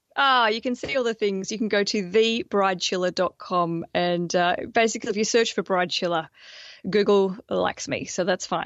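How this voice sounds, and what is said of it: Australian accent. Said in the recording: “I'm the crazy Australian ... I'm the very sensible Australian ... Well, we love the accent. ... I get away with a lot of extra stuff because of this accent.”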